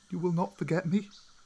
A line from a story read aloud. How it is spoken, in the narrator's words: Mowgli asked sadly